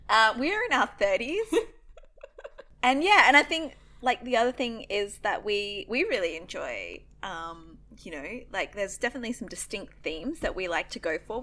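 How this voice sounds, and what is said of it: Australian accent. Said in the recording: “we are Australian, obviously. You can probably tell that by now if you're like, what's that weird accent?”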